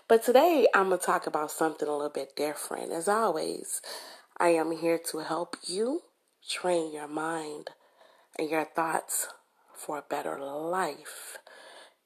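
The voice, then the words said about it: Hoarse voice. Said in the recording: “I'm kind of hoarse, I have a little cold.”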